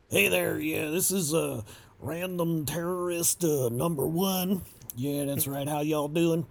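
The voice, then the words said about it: Put-on redneck Southern accent. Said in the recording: “he just had this, like, redneck accent ... we made him a good old boy”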